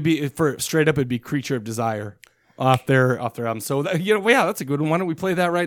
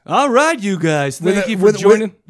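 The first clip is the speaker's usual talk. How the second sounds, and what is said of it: Radio DJ voice. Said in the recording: “give it to me in a radio DJ voice”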